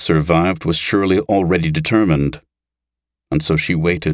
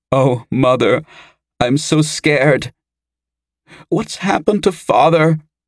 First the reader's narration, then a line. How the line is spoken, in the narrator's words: sobbed in a strangled voice